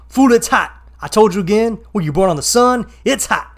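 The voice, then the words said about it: Imitates another person's voice. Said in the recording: “do a Jeff Atkins impression... there is going to be a little bit of an impression here... here goes my impression”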